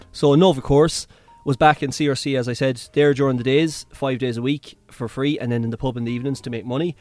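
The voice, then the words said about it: Western Irish Mayo accent. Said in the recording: “Western accent, country accent or whatnot... It's neutral enough, the Mayo accent... sometimes it can be a bit boggery”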